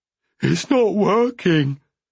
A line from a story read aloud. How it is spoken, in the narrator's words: he wailed